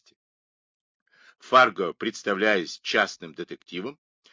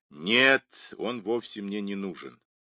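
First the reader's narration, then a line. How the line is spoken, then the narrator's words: Gloomy reply. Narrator (Russian): мрачно ответил Мейсон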